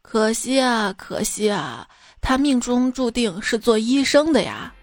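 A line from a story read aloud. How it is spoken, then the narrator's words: Sighing. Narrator (Chinese): 算命先生叹道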